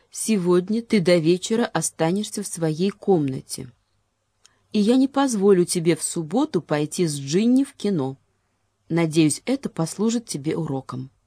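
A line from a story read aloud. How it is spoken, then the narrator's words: Mother, strained pointed calm. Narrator (Russian): проговорила мама странным, подчеркнуто спокойным голосом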